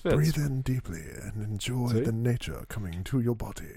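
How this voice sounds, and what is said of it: Put-on nature documentary narrator accent. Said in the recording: “your narration is actually great radio ... I throw in the accent that I can't quite place as far as where it is or where I come up with it ... watch out, Dave Attenborough.”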